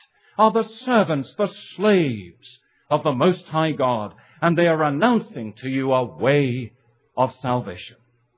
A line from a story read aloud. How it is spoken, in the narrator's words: she cried